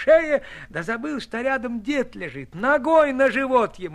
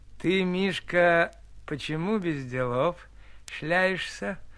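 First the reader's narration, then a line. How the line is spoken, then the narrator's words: Very gentle question. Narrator (Russian): спрашивает очень ласково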